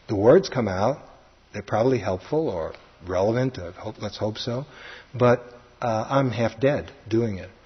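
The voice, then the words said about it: Brooklyn accent. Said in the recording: “I can hear my Brooklyn accent”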